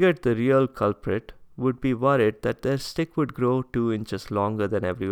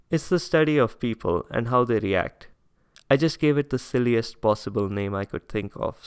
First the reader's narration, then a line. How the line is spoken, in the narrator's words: said Birbal